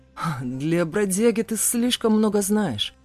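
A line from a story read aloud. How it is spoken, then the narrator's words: Chuckling. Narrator (Russian): хохотнул Тахир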